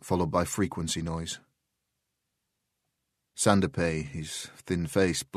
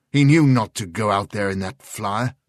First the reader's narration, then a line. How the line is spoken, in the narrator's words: snapped Sheridan